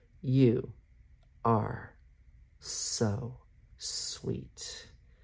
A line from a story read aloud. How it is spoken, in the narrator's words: he murmurs, each word a staccato